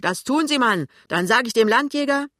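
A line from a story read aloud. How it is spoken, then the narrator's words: Shouting back. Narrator (German): schreit zurück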